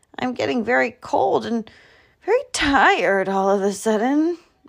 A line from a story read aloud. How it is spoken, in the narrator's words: moaned Bear